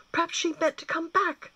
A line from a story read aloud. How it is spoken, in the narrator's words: Gwyn exclaimed aloud